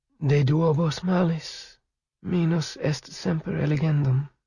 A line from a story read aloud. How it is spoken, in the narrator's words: she murmured